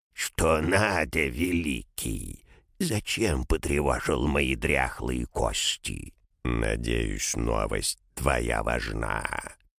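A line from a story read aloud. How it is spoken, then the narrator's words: Creaky demonic voice. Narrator (Russian): этот костлявый демон скрипучим голосом спросил у Крона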